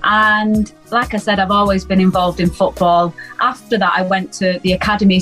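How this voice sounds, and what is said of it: Noticeable accent. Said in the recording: “The accent doesn't give it away either. You've got an accent.”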